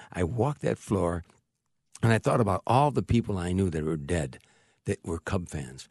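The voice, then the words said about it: Choked-up, emotional voice. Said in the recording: “I'm getting choked up when I'm saying that.”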